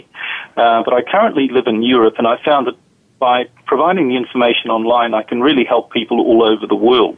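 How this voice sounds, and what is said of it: New Zealand accent. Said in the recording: “As you can probably tell from my accent, I'm from a different part of the world. I'm from New Zealand originally.”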